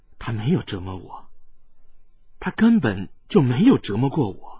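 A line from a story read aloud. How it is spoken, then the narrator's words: Slow wistful sigh. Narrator (Chinese): 冷清平悠悠的叹道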